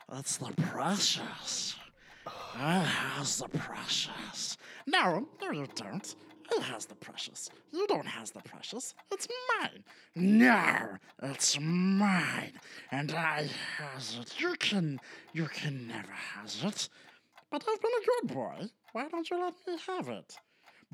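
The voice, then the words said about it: Gollum and Smeagol arguing voices. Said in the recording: “Give your best impression of Gollum and Smeagol arguing with each other.”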